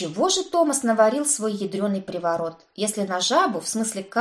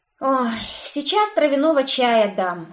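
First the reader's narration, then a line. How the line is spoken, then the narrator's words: Meek sigh. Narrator (Russian): смиренно вздохнула я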